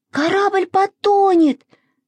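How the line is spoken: Screaming. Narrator (Russian): завопила Маша

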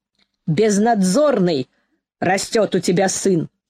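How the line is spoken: Stern father. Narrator (Russian): строго говорил папа

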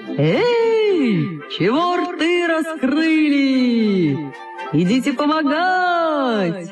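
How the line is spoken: Shout through cupped hand. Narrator (Russian): приложил руку ко рту и крикнул

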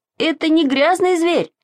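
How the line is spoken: Shouting. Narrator (Russian): закричал Саша

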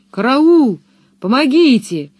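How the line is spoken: Terrified screaming. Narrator (Russian): вопил он, полумертвый от страха

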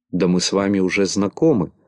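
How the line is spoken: Plain. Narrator (Russian): ответил Бублик

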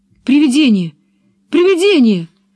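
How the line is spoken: Terrified shout. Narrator (Russian): крикнул в ужасе

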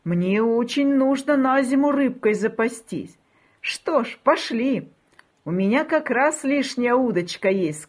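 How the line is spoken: Plain. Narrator (Russian): сказал кот

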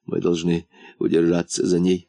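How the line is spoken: Whisper. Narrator (Russian): прошептал муфта

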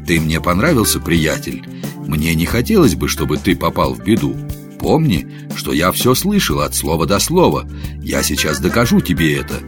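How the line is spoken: Calm, patient. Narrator (Russian): Гендон спокойно и терпеливо ждал, пока он угомонится, затем сказал

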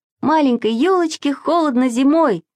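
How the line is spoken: Loud singing. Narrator (Russian): запел Саша очень громко

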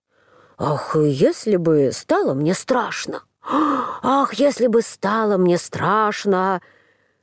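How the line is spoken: Muttering to himself. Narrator (Russian): принялся снова про себя бормотать

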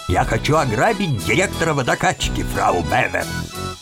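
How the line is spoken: Gloomy mutter. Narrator (Russian): он вдруг состроил мрачную гримасу и пробормотал

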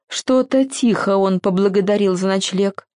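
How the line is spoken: Angry hiss, old creature. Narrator (Russian): сердито зашипел самый маленький паучок, весь седой

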